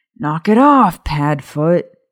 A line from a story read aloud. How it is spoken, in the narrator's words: James growled